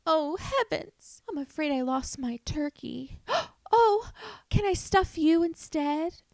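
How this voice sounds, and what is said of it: Put-on Southern belle accent. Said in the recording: “That was my impression of a Southern belle using that pickup line in like a 1940s black and white movie.”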